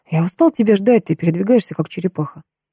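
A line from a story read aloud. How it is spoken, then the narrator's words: Vampire's sigh. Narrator (Russian): вздохнул вампир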